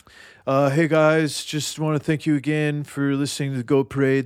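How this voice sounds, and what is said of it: Imitates another person's voice. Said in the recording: “I've been working on my Cam impersonation.”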